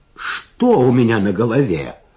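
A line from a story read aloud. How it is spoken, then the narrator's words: Exclamation. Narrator (Russian): воскликнул он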